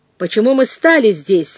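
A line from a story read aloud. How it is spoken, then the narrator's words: Irritated question. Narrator (Russian): раздраженно осведомился я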